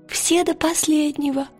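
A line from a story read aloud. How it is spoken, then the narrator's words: Whispered confirmation. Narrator (Russian): подтвердил Пантелеймон шепотом, как Лира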